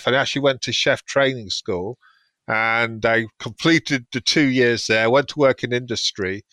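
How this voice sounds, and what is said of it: British English accent. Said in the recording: “I was originally from the UK, as you can tell by the accent.”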